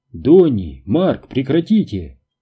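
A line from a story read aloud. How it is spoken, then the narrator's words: Exclaimed. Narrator (Russian): воскликнул Бобби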